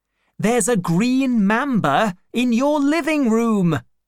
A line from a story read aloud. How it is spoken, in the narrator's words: I shouted